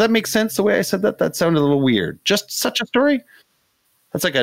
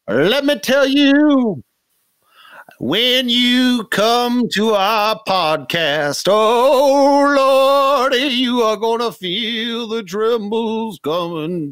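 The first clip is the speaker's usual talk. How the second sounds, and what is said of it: Preacher-style sermon voice. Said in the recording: “talking like a preacher”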